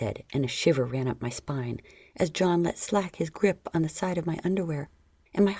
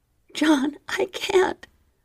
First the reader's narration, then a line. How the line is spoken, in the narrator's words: I whimpered, but my liquid low voice broke